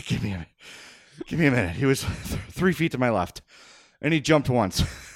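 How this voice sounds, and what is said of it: Out of breath, panting. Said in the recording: “I'm out of breath... I am sweating profusely.”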